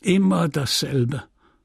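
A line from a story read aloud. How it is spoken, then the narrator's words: Clergyman grumbling. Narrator (German): brummte der Geistliche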